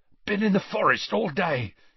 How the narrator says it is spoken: he panted

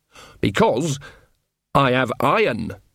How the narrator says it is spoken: said Nanny, her voice suddenly sharp

